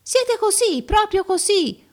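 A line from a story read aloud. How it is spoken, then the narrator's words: Crowd yelling. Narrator (Italian): urlavano tutti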